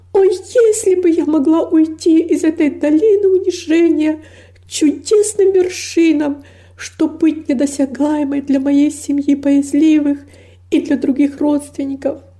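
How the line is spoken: Anguished, longing exclamation. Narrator (Russian): воскликнула с невыразимой тоской

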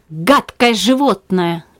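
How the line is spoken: Irritated cry. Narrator (Russian): раздраженно вскричала Циска

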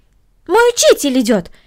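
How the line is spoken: Exclaimed. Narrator (Russian): воскликнула Корнелли

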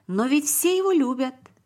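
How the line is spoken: Exclamation. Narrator (Russian): воскликнул Давид

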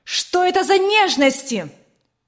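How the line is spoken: Angry shout. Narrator (Russian): Сверкая от гнева глазами, закричала она

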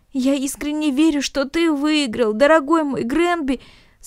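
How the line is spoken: Sobbing uncontrollably. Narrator (Russian): сказал Наэль, безудержно всхлипывая

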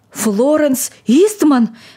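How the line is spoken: Old man's agitated exclamation. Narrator (Russian): воскликнул старик в неудержимом волнении

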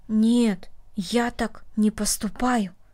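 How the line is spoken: Said quietly. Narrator (Russian): тихо сказал Дина

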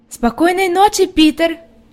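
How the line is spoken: Shout across distance. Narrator (Russian): крикнула Хади, заметив, что он не собирается подходить

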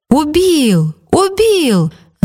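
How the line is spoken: Crowd shouting. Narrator (Russian): закричали кругом

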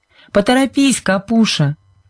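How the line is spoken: Laughing shout. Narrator (Russian): крикнула Сьюзен и, повернувшись, засмеялась

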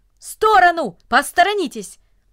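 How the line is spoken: Brisk, urgent shout. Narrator (Russian): Деловито, как будто у него было какое-то срочное дело, он поспешил вниз по ступенькам и даже закричал

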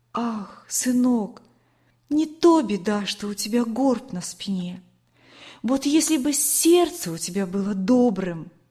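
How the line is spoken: Tender, affectionate. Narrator (Russian): ласково говорила

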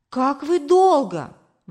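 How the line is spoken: Mother exclaiming. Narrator (Russian): воскликнула мама

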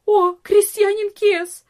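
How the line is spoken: Maid's sudden cry. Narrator (Russian): вскрикнула одна из служанок

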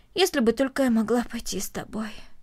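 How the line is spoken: Heavy sigh. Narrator (Russian): тяжело вздохнула Корнелия

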